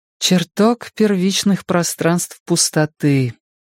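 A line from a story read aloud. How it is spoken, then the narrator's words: Quiet repetition. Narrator (Russian): тихо повторила она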